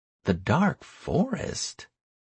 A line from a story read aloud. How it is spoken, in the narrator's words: she said in a thoughtful voice